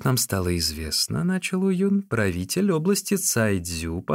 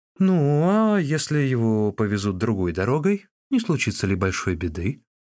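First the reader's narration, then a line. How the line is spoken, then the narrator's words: Uncertain. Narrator (Russian): неуверенно промолвил Чао Гай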